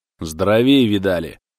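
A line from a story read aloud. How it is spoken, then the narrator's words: Angry old man. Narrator (Russian): Сердито отозвался пенсионер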